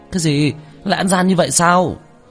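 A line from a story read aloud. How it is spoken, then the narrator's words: Angry shout. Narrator (Vietnamese): Chu Gia Hào nổi giận hét lên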